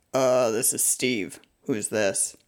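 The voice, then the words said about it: Woman imitating a man's voice. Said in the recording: “I can sound like a man ... answer in my guy voice”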